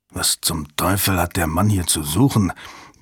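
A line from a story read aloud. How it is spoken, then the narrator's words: Angry grumble. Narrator (German): brummte Strassmore ärgerlich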